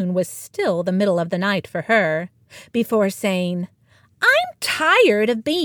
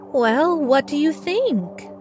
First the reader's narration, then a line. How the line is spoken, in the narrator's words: Inez asked nervously